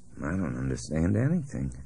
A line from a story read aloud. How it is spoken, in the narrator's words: Albert muttered